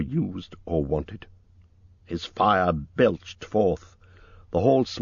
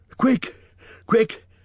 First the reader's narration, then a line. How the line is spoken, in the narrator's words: he gasped